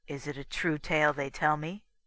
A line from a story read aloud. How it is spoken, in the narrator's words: Grow answered